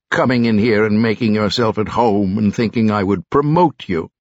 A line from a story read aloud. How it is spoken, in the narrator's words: spat